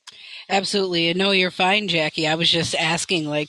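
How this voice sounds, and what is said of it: Raspy, slightly sick-sounding voice. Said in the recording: “do I sound sick? ... there is probably a reason my voice sounds a little raspy”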